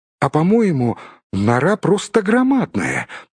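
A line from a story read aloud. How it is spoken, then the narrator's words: Squeaky voice. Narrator (Russian): пискнул Бильбо, бывавший только в хоббитовых норах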